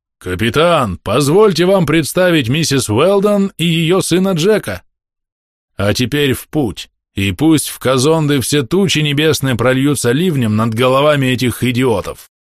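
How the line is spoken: Resonant voice. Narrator (Russian): сказал звучным голосом

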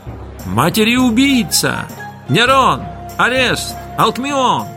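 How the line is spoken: Shouting. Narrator (Russian): кричали

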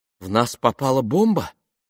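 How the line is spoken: Trembling question. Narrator (Russian): спросила она дрожащим голосом

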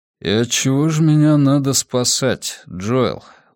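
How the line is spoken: Tired question. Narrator (Russian): устало спросил он

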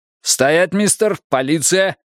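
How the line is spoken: Barked. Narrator (Russian): рявкнул один

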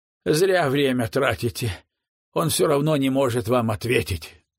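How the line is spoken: Grumbling mutter. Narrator (Russian): буркнула Лола

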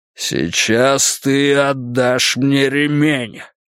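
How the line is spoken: Man growling. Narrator (Russian): прорычал он

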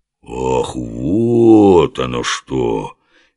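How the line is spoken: Slow singsong drawl. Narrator (Russian): Медленно и певуче протянул знаток женских душ, для которого неожиданно все стало на свои места

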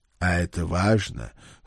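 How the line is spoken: Old soldier's muttered snort. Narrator (Russian): хмыкнул себе под нос старый вояка

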